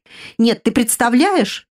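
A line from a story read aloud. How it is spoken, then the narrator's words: Exclaimed. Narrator (Russian): воскликнула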